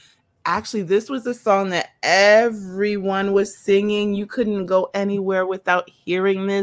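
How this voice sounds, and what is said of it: Usual voice. Nothing is said of it.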